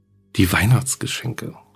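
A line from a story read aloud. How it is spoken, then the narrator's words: Murmured. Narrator (German): murmelte sie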